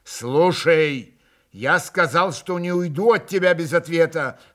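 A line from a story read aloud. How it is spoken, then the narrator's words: Furious irritated shout. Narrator (Russian): в страшном раздражении крикнул Иван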